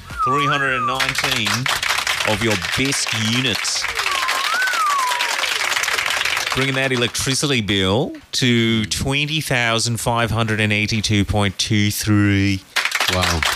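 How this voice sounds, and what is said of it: Put-on Australian accent. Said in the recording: “shocking information seems a lot nicer when it's done in an Australian accent.”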